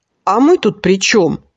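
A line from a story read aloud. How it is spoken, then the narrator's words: Snapping back. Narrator (Russian): огрызнулся Борька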